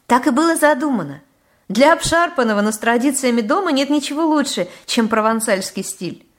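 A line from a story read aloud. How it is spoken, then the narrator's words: Laughing. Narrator (Russian): засмеялась она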